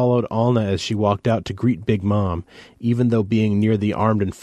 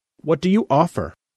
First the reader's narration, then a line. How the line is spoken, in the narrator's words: Alna said sharply